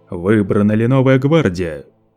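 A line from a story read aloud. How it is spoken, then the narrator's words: Thunderous question. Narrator (Russian): Громовым голосом Лето вопросил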